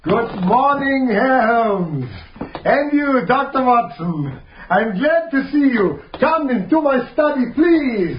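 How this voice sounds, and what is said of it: Exaggerated comic operetta foreign accent. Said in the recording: “that ridiculous comic operetta accent”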